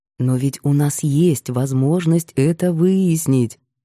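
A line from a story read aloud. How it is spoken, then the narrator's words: Insinuating, ingratiating tone. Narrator (Russian): вкрадчиво начал Макар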